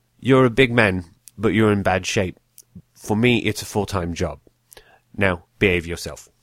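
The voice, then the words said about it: Poor imitation of another person's voice. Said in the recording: “That is the worst Michael Caine impersonation you will ever hear”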